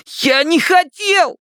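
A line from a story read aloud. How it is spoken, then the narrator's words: Shrill squeal. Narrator (Russian): взвизгнул Стэн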